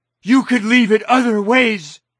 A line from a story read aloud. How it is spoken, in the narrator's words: she shouted back